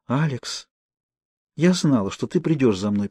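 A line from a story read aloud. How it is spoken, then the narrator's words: Whisper. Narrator (Russian): прошептала Наоми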